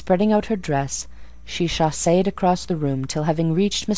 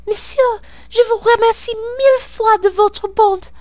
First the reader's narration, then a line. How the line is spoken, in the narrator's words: exclaiming